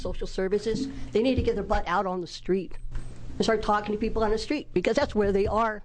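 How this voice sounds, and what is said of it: Raised, loud voice. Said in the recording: “I raised my voice.”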